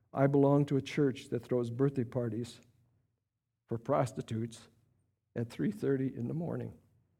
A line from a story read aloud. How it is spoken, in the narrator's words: Tony answers him quietly